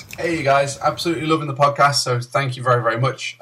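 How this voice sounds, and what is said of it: British accent. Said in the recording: “I know he'll have a decent British accent”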